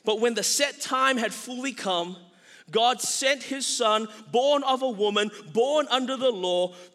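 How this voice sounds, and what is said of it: Asian Australian accent. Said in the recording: “my cool Asian Australian accent”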